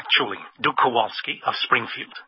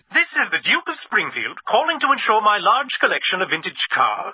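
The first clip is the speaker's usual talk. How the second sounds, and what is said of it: Fake posh aristocratic accent. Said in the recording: “the fake accent”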